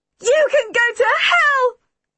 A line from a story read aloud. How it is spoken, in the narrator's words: Minnie screamed at her